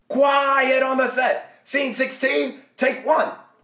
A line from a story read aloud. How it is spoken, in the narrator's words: The guy with the clapperboard shouts